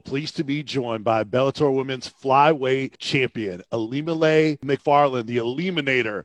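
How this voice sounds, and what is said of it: Polished radio broadcaster voice. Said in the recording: “You have a great radio voice.”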